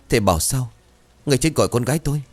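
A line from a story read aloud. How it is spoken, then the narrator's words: Woman, panicked, distraught voice. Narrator (Vietnamese): Bà Bèo thì mặt cắt không còn giọt máu, hoảng loạn hỏi bằng giọng lạc thần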